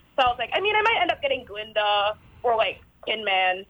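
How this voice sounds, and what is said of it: American Yankee twang accent. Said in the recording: “Yankee twang ... she's talking like a Yankee”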